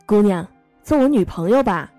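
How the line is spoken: Shouting. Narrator (Chinese): 我大喊对他说

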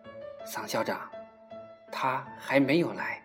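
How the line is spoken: Soft, anxious. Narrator (Chinese): 蒋一伦不安地轻声说道

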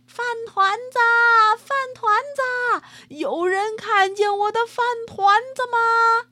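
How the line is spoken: Shouting while running. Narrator (Chinese): 一边跑一边喊着

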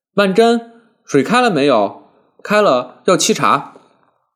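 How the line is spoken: Calling from next room. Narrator (Chinese): 顾太太在隔壁房间里忍不住在外面喊了一声道

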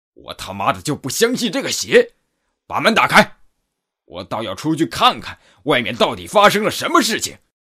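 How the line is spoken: Angry roar. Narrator (Chinese): 络腮大汉突然怒吼一声

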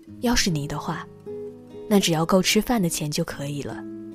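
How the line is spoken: Sighing. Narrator (Chinese): 三毛叹了口气，回答他

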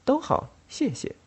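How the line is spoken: Very soft voice. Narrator (Chinese): 他的声音十分柔和

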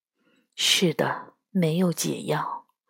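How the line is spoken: Low voice. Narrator (Chinese): 斗牛低声说道

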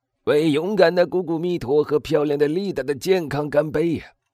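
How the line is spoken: Woman shouting. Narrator (Chinese): 一个女人的叫喊声

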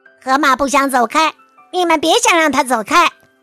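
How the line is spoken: Squawking parrot. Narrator (Chinese): 那鹦鹉又嘎嘎的叫起来

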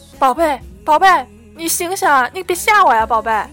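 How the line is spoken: Frantic desperate shouting. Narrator (Chinese): 咸菜急得眼睛都红了，大喊着

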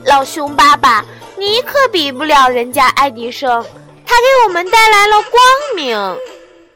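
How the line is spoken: Child chuckling. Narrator (Chinese): 熊孩子嘿嘿笑了，说道

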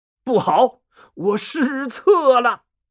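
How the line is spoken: Sudden loud cry. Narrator (Chinese): 军师吴用啊，突然大叫一声

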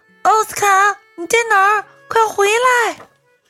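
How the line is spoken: Shout. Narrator (Chinese): 传来了西维亚的喊声

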